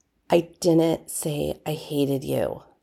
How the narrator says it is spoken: John muttered

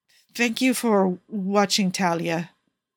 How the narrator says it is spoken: Paolo stammers

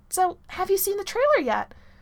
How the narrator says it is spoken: blurts out of nowhere, and his voice cracks on the last word

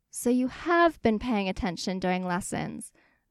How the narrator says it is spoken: Legolas exclaims

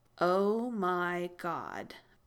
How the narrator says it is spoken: Victor said slowly, amazed

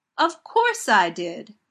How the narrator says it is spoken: Donna says indignantly

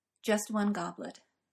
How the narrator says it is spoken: Merlin says, quietly now, and with nothing of his earlier casualness

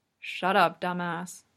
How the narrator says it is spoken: Kageyama mumbles

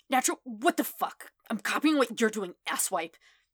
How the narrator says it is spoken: Kachan sputters, obviously trying to hide his embarrassment

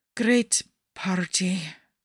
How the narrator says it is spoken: Nikki mumbles

